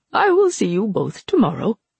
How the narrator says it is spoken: he said cheerfully

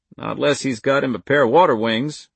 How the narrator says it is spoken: answered, and they all chuckled

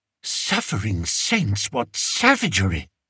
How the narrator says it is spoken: whispered Fred, who'd turned pale

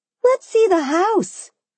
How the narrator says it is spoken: I cried

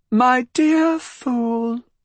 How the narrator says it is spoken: she began in a quavering high voice

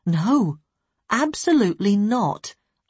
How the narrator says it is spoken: I said firmly

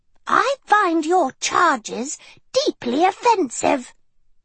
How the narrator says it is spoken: Helga retorted, her voice tight and pitchy

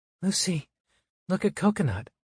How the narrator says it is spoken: the mom whispers to the little girl

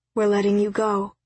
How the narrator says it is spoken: Zoe told her father calmly

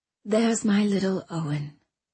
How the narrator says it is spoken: she whispered with affection

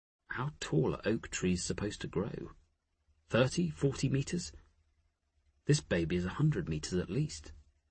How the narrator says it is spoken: He muttered

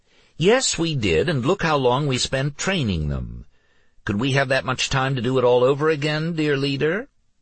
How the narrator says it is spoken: Tatia asked, her voice sweet and encouraging

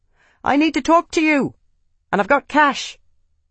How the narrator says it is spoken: he shouted

